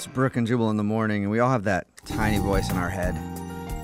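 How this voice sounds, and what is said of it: Usual voice. Nothing is said of it.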